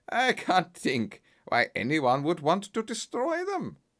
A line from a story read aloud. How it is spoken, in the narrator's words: the man said with a laugh